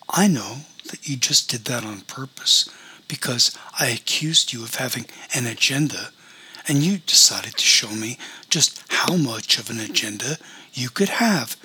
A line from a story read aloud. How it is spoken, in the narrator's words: said Celeste calmly